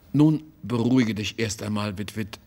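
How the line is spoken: Plain. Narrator (German): sagte er

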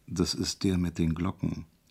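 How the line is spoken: Discreet whisper. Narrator (German): flüsterte ihm der Arzt unauffällig zu

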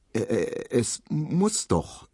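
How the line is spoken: Stammered. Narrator (German): stotterte Emil Kubinke

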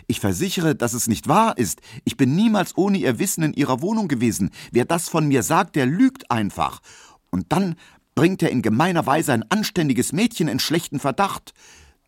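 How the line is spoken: Calling out. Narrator (German): rief er

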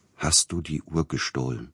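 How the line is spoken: Quiet question. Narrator (German): fragte er leise

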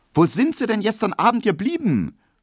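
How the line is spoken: Unfriendly call, small woman. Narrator (German): rief die kleine, runde Hedwig Emil Kubinke wenig freundlich entgegen

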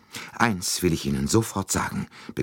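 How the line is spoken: Breathless. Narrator (German): begann sie atemlos

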